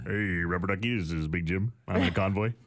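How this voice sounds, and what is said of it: Trucker CB radio voice. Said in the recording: “trucker radio voice”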